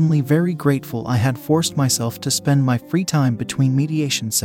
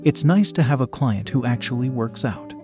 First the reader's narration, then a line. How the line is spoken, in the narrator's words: she said softly